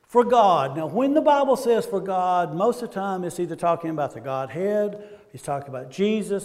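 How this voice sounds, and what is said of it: Southern American accent. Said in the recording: “speaking Southern ... I will say oil ... my Southern upbringing”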